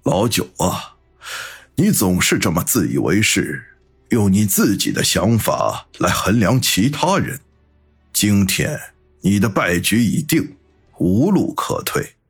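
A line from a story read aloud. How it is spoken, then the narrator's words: Sighing, slow. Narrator (Chinese): 七爷叹口气，缓缓的说道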